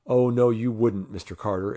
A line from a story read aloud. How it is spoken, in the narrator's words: exclaimed one of the men